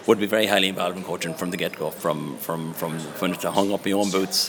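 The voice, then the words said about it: Regional Irish accent, not Donegal. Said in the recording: “that accent, not a Donegal man”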